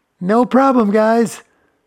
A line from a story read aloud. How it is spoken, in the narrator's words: yelled from the other side, a slight crack in her voice